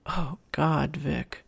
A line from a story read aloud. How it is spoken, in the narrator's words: Tom groaned